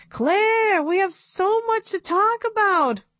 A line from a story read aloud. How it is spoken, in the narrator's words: Katz was already running out the door, yelling